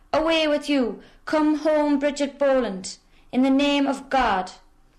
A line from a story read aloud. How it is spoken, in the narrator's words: they all shouted